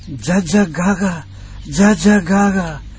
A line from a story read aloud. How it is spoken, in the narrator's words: in a voice choked with ecstasy